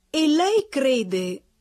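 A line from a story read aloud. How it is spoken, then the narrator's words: Relentless reasoner's exclamation. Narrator (Italian): esclamò quel ragionatore implacabile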